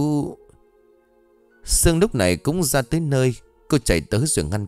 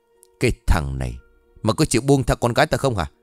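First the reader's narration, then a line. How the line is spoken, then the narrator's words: Harsh growling shout. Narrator (Vietnamese): ông gần giọng quát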